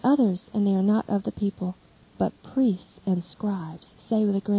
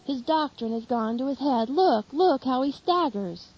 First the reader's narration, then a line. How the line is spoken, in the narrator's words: And the people notice it and shout